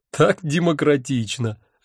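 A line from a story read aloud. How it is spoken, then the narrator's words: Laughing loudly. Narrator (Russian): расхохотался я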